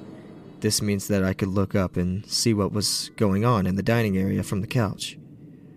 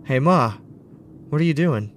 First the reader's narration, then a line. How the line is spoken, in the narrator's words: in a nervous yet warm voice